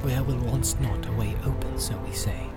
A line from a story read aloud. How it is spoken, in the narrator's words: he whispered